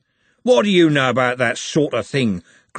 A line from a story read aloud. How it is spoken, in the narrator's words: growled Andy